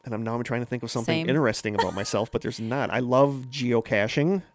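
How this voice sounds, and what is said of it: Wisconsin accent. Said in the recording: “We both live in Wisconsin, which you can probably tell from the accent. ... You're just going to have to deal with the accent.”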